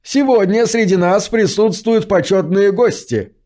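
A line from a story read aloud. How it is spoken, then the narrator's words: Shouted. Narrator (Russian): выкрикнул Лестер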